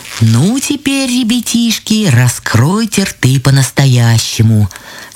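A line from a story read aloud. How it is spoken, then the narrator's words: Plain. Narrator (Russian): сказали грибы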